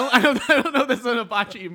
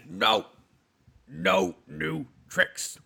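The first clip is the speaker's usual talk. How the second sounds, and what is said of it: Imitates another person's voice. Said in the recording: “the Jimmy Hoffa impersonation. ... it's Pacino doing Hoffa. So that was like my Pacino trying to not sound like Pacino”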